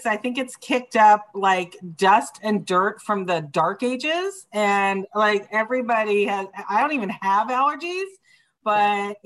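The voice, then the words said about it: Raspy, hoarse voice. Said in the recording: “apologize for my voice ... I sound like I'm a smoker now”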